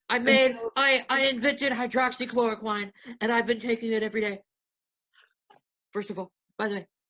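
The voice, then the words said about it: Imitates another person's voice. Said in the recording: “doing an impression of Alec Baldwin doing an impression of Donald Trump ... it's pretty good”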